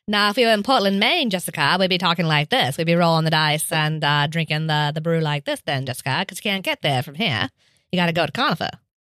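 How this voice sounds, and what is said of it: Put-on transatlantic-sounding accent. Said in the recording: “You get a transatlantic accent all of a sudden.”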